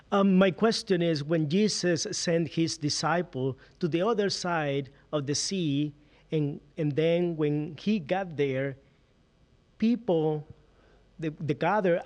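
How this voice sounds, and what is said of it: Venezuelan Spanish-accented English. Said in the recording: “that's more South kind of accent than even Little Rock... Way south in Venezuela”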